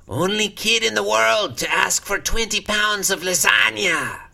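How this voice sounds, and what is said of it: Imitates another person's voice, throat-straining. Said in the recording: “that voice hurts my throat... It was actually starting to sound more like a Mexican stereotype... I'm not good at doing a Peter Lorre voice... It's a hard voice to do.”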